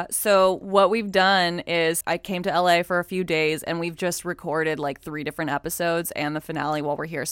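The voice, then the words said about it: Hoarse voice. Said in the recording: “my voice sounds like awesome and hoarse”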